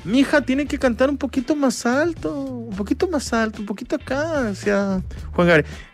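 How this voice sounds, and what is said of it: Poor imitation of a singer's voice. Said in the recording (Spanish): “es mi mala imitación de Juan Gabriel, horrible”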